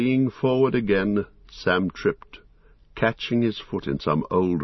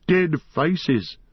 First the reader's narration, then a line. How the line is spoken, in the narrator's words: Colum laughed